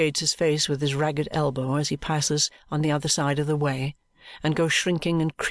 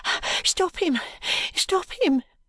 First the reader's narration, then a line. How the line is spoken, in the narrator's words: cries the woman, almost breathless